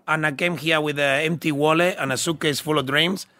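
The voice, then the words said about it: Unusual Scottish-influenced English accent. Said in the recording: “my accent sounds really funny because I learned English in the Scottish kitchen”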